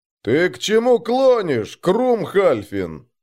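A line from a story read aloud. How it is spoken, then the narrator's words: Booming, chief hunter. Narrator (Russian): прогудел Дагви Лобородый, ставший главным охотником вместо Лодина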